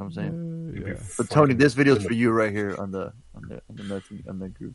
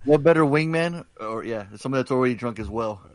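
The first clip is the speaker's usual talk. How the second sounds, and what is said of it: Sarcastic tone. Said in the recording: “That's why I'm being sarcastic.”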